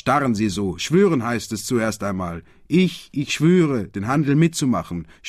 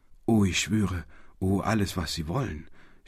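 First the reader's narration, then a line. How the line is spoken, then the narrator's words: Stammering in devoted outburst. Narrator (German): stammelte heraus in einem Ausbruch rückhaltloser Selbsthingabe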